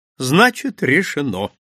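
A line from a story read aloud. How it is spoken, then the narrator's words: Cheerful. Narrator (Russian): весело произнес итальянец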